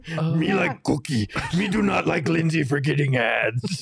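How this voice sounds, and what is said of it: Cookie Monster character voice. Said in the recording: “I actually do a really good Cookie Monster impersonation.”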